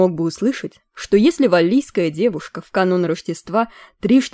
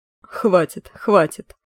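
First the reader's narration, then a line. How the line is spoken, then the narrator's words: Laughing. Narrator (Russian): расхохотался Макехт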